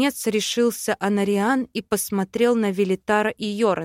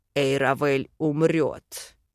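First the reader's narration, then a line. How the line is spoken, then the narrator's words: Growl. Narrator (Russian): рыкнул Йорен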